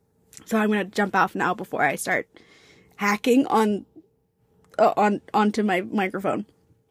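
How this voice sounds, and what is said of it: Hoarse, fading voice. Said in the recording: “I'm starting to lose my voice again ... I am starting to lose my voice again”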